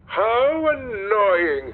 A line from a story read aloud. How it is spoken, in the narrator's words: cried